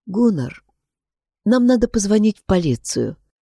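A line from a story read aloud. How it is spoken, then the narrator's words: Soft voice. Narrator (Russian): мягко сказала Тора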